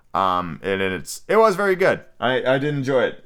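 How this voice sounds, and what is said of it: Hoarse, strained, fading voice. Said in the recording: “my throat is on fire and my voice is rapidly fleeing my body”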